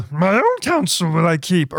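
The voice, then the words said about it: Poor imitation of Yoda's voice. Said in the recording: “That was a terrible Yoda impression.”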